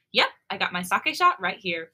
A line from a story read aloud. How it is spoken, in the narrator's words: she says cheerfully